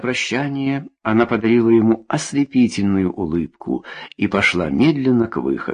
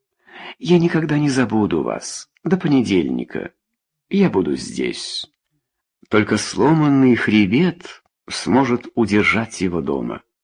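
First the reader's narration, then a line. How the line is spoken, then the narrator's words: Gentle woman. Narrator (Russian): Женщина сказала ласково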